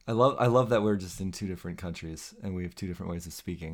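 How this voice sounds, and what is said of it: American accent. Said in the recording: “your lovely American accent”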